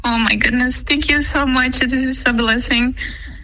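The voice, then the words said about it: Emotional, tearful voice. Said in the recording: “Why do you get emotional?”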